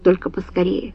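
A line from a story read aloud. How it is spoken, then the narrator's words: Quiet request. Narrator (Russian): негромко попросил граф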